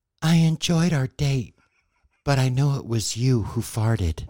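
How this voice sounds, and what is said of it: Imitated female voice. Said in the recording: “in my best female voice.”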